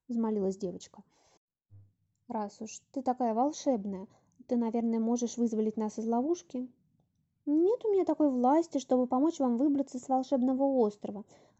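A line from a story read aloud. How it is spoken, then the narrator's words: Plain. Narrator (Russian): ответила одинокая утка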